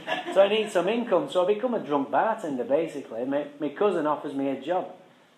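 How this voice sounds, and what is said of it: Manchester English accent. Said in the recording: “He's from Manchester lad too... you got a funny accent just like me.”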